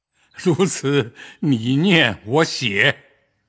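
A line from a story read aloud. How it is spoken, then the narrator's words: Smiling. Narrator (Chinese): 向宝玉笑道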